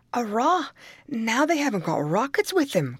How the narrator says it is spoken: cried Tim

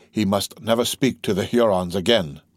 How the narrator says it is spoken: said the young chief in a low voice

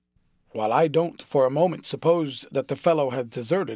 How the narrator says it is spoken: said the lieutenant

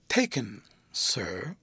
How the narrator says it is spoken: Topi deferentially murmurs

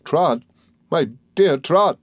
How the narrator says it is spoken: cried my aunt in a terrified whisper

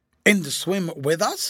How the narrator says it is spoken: he said

